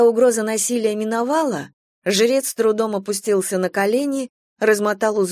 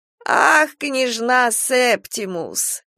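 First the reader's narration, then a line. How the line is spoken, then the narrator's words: Quavering elderly voice. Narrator (Russian): произнес он дребезжащим старческим голосом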